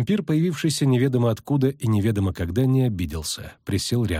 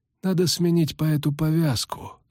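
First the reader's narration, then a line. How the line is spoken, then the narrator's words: Calm. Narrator (Russian): сказал он спокойно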